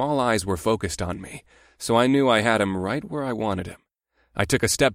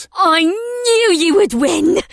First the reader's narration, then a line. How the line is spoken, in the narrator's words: Amrila squealed